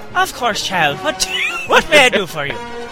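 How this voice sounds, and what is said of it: Poor put-on Irish accent. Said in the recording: “shitty Irish accent”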